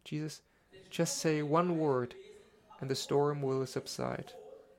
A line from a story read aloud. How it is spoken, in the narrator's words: said in a calm voice and without panic